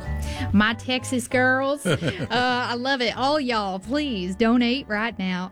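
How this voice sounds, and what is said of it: Put-on Texas accent. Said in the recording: “I can't get out of that. I have to stop doing that accent.”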